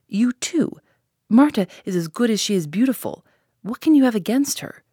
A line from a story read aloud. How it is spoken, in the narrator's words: cried the boy